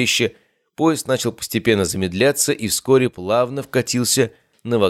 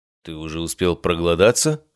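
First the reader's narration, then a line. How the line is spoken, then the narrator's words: Amused snort. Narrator (Russian): хмыкнул я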